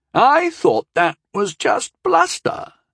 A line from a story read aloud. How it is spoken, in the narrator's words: Yeetin whined